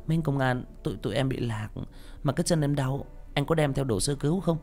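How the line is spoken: Coquettish voice. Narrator (Vietnamese): Cô nói với chất giọng điệu đà

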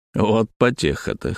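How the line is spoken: Smirking. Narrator (Russian): хмыкнул я

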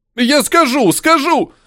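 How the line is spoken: Frightened yell. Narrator (Russian): Увидев нож, заорал бегун

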